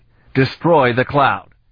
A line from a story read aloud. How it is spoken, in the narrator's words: he said sharply